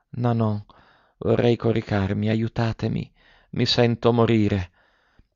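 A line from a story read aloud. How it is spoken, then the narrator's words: Very weak murmur. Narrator (Italian): Con voce debolissima, ella mormorava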